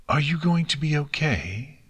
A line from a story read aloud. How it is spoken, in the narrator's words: Celestia asked very quietly